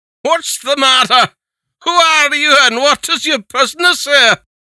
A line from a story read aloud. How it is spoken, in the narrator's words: As the old man opened his eyes, he cried out